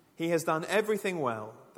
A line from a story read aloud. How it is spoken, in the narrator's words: they said